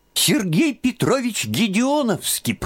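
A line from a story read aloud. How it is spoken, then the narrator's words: Squeaky boy's voice. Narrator (Russian): пропищал краснощекий казачок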